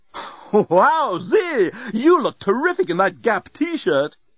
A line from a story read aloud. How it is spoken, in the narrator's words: it exclaimed